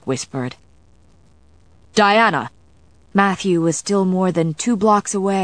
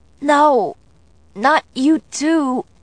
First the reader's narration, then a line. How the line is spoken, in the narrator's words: I gasped, wasting the last of my breath